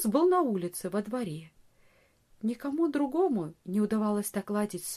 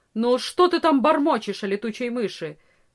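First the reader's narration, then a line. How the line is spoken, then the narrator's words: Stern peasant woman's question. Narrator (Russian): строго спросила крестьянка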